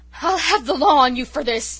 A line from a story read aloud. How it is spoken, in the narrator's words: he gasped